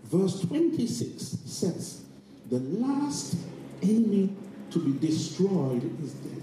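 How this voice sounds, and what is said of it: Soft, quiet reading voice. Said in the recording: “I read that softly.”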